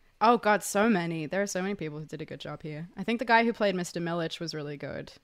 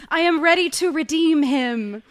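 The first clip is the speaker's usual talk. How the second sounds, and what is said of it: Put-on American accent. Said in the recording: “You do a very good American accent ... Slip into that Yank accent ... That's the perfect Cate Blanchett stuff.”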